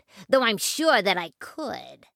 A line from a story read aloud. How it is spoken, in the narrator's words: sneered the rat